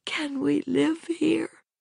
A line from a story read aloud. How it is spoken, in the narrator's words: she managed in an unsteady voice